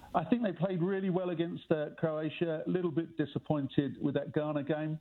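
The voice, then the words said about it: English accent. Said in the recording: “with my accent, I'm English.”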